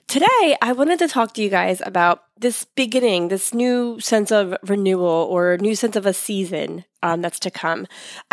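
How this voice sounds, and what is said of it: Voice sounds sick. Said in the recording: “I don't know if you can hear it in my voice, but I have been battling sickness for the past 2 weeks”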